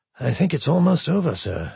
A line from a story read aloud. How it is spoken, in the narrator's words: de Berthollet said quietly